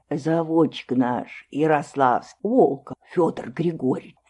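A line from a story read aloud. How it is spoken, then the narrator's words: Low-voiced old man explaining. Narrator (Russian): вполголоса объяснил дед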